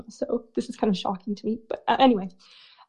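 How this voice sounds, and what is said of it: Shaky, emotional voice. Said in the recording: “My voice was going to get so shaky”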